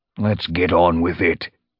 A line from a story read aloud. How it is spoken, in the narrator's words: he growled